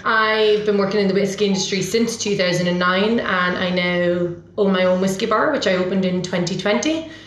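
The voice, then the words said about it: Slightly diluted Irish accent. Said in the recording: “I'm originally from Ireland... my accent's probably a little bit diluted”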